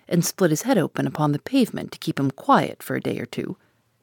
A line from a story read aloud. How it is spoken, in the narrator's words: he muttered derisively